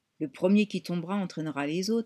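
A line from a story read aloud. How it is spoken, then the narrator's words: Murmur. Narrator (French): a murmuré Poppy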